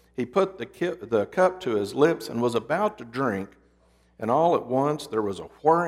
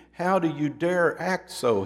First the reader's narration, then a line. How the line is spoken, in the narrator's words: cried